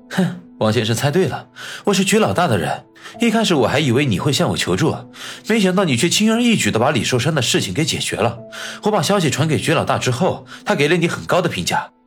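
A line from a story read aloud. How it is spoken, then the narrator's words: Light laugh. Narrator (Chinese): 焦秘书轻轻一笑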